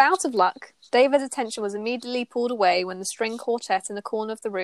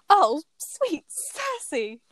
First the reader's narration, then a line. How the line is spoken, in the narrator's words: exclaimed